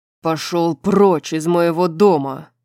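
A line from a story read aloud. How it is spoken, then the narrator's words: Barked. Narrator (Russian): рявкнул Рун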